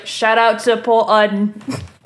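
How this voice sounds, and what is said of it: Bad baritone British-accented impression. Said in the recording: “Is that your impression of me? ... Horribly, but yes. ... That was horrendous. ... I was trying to balance out the baritone with the British accent. It just wasn't happening.”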